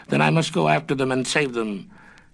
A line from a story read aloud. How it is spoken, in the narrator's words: the little boy gave a shout, exclaiming